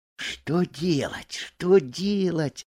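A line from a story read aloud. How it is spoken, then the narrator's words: Whisper. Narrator (Russian): шептал Буртик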